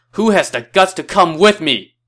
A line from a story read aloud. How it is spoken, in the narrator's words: did his best Jerry Maguire impression and shouted